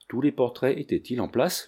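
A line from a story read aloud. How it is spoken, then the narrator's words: Plain. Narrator (French): lui dit Manfred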